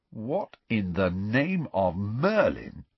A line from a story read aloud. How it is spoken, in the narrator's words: said Ron slowly